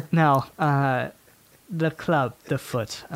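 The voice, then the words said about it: Put-on French accent. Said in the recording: “I started doing a French accent”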